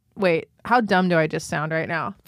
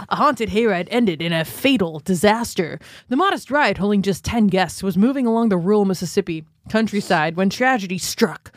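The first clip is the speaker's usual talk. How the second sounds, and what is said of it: Dramatic TV news narrator voice. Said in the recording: “my Dateline voice”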